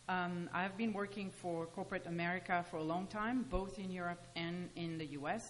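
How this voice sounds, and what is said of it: French accent. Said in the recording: “as you can hear by my accent, you know, we moved from France”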